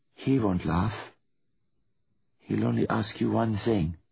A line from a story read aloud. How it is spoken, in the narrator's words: she said softly